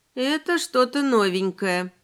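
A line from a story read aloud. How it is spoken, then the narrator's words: Sleepy groan. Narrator (Russian): сонно прокряхтела я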